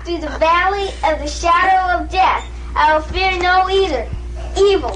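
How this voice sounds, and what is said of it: Put-on Southern preacher accent. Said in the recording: “Where were you getting that accent from? ... But I had this weird like Southern accent.”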